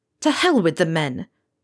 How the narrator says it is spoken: Pilot said fiercely

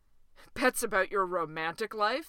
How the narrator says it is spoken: said Dewey with a laugh that was almost kind of mean

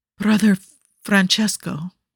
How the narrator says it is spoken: he breathed out in fear

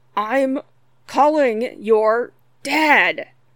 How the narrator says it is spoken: Scott gasped out, struggling

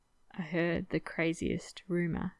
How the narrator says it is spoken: Ed whispered

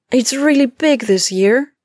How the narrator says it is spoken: she squealed

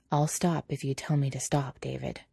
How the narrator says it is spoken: Quietly, Patrick says

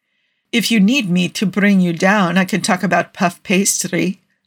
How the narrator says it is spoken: Nikki said, laughing

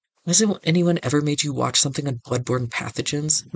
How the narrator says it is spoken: McKay snaps

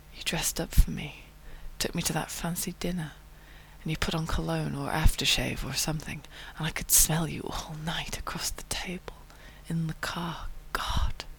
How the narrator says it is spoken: he's murmuring

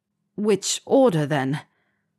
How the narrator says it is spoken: Harry sighed

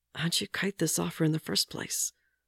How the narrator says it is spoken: mutters

